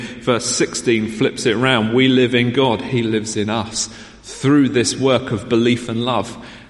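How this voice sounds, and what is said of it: Southern English accent. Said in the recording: “You'll notice I talk with a fairly southern accent. ... I'm an Essex boy ... I've not lost the accent of where I lived.”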